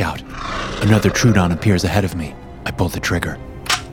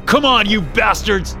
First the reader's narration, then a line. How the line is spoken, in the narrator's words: I yell again